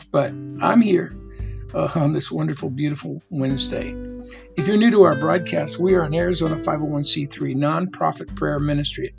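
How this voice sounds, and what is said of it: Slightly gruff, rough voice. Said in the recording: “I'm a little under the weather. My voice is a little gruff”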